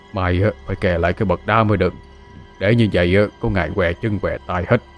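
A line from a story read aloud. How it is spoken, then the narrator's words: Doddering old man muttering. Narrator (Vietnamese): Ông lầm cầm ... lẩm bẩm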